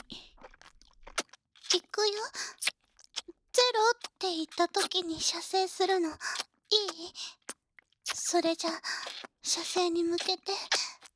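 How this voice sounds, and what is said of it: Whispering. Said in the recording (Japanese): “一緒に左右の耳でささやくのよ”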